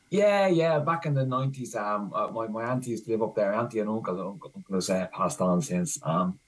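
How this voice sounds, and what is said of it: Dublin Irish accent. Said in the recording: “I think you have a Dublin accent”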